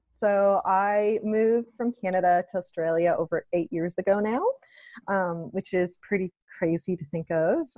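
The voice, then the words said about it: Noticeable non-local accent. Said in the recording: “they always think that, oh no, this is someone calling from a random place, just because of my accent.”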